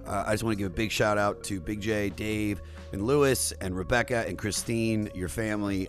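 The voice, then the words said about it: Rough, worn-out voice. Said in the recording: “my voice is terrible”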